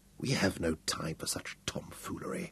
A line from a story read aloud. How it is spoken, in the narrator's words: Hal murmured half-heartedly